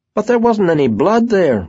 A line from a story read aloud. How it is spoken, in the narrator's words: Rosie said triumphantly